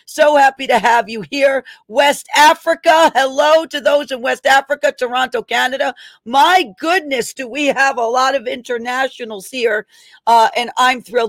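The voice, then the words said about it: Strong New York accent. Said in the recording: “My accent probably sounds very funny to you. ... this is as probably almost New York as New York can get when it comes to accents.”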